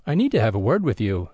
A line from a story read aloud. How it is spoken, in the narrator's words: declared in a firm tone